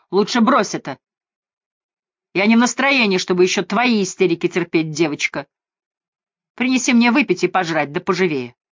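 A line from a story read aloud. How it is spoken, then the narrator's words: Yelled. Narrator (Russian): он заорал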